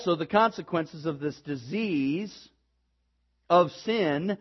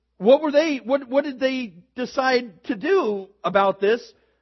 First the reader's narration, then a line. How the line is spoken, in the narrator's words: They cried out